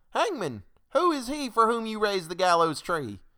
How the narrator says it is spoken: one cried

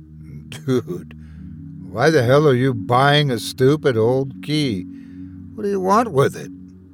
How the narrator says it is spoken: sighed

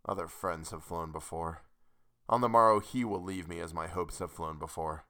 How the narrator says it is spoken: I scarcely more than muttered

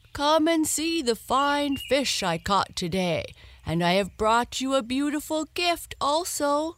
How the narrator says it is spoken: the old man called out to his wife

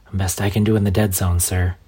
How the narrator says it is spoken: replied

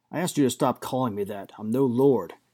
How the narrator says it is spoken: Gareth growled over his shoulder

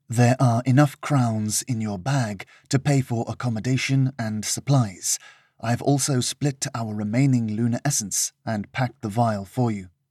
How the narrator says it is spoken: had whispered hurriedly

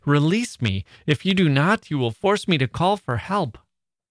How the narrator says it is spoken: cried I

